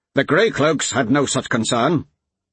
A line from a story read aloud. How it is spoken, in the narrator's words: the Thane shot back, harshly enough to surprise even Vasek